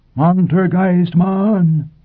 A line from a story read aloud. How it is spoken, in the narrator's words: they bellowed